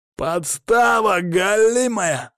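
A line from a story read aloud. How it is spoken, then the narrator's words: Hoarse, angry yelling, cracking. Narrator (Russian): орал хрипло, голос ломался от злости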